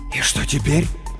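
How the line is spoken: Whisper. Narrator (Russian): прошептал он

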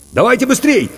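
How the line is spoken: Shouting. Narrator (Russian): крикнул Иван

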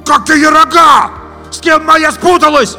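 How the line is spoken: Shouting after them. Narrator (Russian): Опомнившись, кричал им вслед Витя

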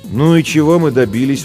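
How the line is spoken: Tired question. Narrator (Russian): устало спросила Жен

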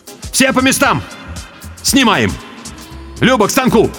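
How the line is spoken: Shouting. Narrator (Russian): крикнул

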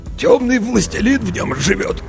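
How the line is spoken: Hoarse voice. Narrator (Russian): хрипло сообщил градоправитель

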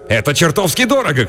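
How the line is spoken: Shouted. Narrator (Russian): крикнул мужчина

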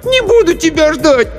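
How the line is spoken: Shouting. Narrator (Russian): Аня закричала

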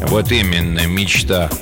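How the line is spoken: Gloomy reply. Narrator (Russian): мрачно отозвался оказавшийся рядом Горюн

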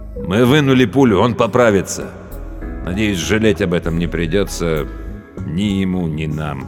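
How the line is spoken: Plain. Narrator (Russian): сказал Абдулла

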